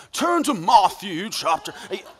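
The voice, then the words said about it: Put-on British accent. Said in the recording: “preaching to you with a British accent ... British voices sound more credible”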